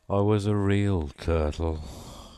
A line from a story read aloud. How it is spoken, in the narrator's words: said the Mock Turtle at last, with a deep sigh